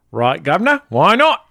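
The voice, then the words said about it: Put-on Cockney accent. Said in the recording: “Can you do a Cockney accent?... That's about as good as you need to get in order to be in Mary Poppins.”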